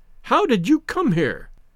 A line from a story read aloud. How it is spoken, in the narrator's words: he cried aghast